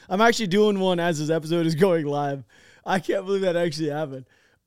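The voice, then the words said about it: Strained, nearly lost voice. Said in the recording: “my voice is going crazy right now ... my voice is almost gone”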